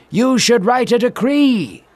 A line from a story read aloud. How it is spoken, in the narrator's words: one of the men shouted